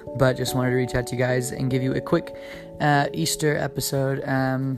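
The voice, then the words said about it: Hoarse, worn-out voice. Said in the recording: “My voice is totally fried because we did 2 Easter services last night”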